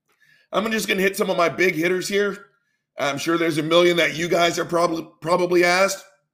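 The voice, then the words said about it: Gravelly, rough voice. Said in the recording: “My voice is gravelly.”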